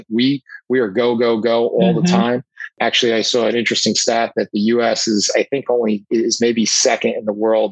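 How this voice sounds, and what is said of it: New York New Jersey accent. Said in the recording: “I'm in the New York, New Jersey area, as you can tell by my accent.”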